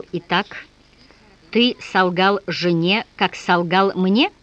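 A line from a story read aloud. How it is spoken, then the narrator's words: Slow. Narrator (Russian): Азарев-старший медленно сказал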